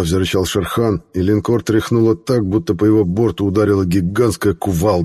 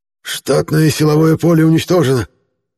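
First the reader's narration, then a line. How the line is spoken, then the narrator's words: Hoarse report. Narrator (Russian): хрипло доложил старший инженер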